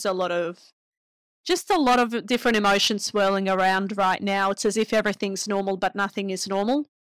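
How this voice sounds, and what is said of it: Hoarse, failing voice. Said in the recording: “losing my voice, guys. I cried all morning.”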